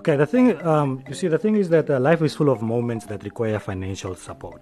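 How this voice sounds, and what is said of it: Polished radio-style voice. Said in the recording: “you sound like you have a radio voice, man”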